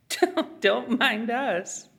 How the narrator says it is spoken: chuckled the other

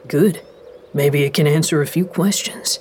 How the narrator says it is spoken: Andy replied

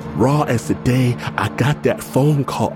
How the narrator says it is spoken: I wail

